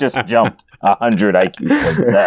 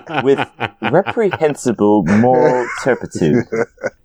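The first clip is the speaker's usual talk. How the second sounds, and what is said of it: Put-on British accent. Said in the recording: “if you said it with a British accent, I would really then buy it”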